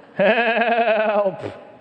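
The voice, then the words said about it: Imitates a sheep yelling. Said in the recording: “my sheep impression”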